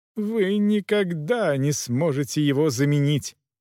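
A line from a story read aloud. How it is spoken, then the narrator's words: Sobbing woman. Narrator (Russian): рыдала женщина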